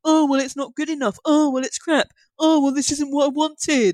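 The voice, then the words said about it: Nasal, lower-pitched whiny complaining voice. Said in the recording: “your imitation of internet complaining. ... They all have this nasal problem where they sound kind of ... they all have a slightly lower voice.”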